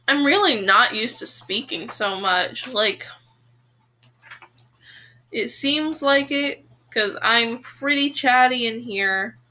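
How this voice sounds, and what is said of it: Strained, fading hoarse voice. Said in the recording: “I need to drink some water. My voice is dying.”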